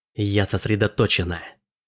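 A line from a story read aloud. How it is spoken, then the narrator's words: Hissed. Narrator (Russian): прошипела Марлин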